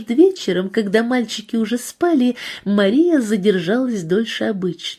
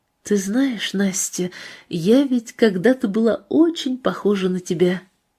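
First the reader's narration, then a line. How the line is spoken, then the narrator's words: Quiet. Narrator (Russian): тихо сказала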